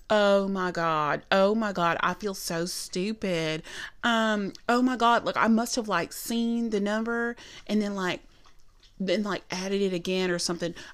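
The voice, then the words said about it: Exaggerated Southern US woman's voice. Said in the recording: “I'm going to do an impression of her voice because she's so Southern.”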